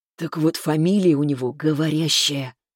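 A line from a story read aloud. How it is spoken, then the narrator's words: Conspiratorial whisper. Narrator (Russian): заговорщически прошептал Михаил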